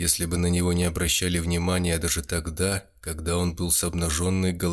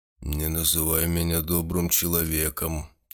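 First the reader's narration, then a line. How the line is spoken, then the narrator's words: Quiet. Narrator (Russian): тихо сказал Гудо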